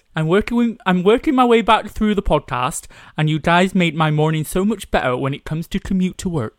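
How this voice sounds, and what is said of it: Put-on Bristol accent. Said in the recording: “Read out in a Bristol accent ... that was my Bristol accent ... that was too good”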